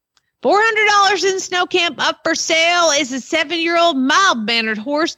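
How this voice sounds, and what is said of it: Southern American accent. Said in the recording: “you need an accent ... We can't get out of the South today”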